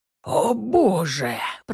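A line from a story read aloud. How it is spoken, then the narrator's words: Distant wheeze. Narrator (Russian): просипел кто-то от отдаленной парадной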